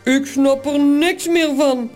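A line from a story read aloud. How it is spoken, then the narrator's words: Grumbling. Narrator (Dutch): bromt Toos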